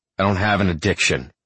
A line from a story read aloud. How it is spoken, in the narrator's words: I snarl